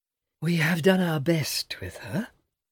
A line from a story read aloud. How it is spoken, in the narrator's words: Lady Shelton sighs